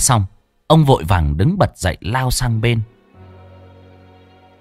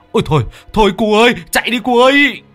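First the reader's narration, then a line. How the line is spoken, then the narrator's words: Shriek. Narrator (Vietnamese): ông Cạc rú lên một cái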